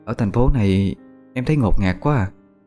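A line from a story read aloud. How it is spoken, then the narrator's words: Sad. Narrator (Vietnamese): Vẫn với giọng điệu buồn rầu, Hà Anh nói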